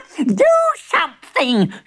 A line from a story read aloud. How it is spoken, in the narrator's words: she shrieked